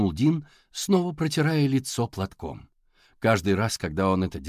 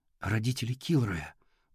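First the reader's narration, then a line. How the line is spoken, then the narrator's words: Whisper. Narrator (Russian): прошептал Тео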